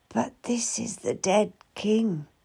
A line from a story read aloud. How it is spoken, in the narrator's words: I whisper